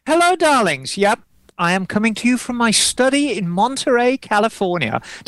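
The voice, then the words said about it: Put-on posh voice. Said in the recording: “sound posh, darling?”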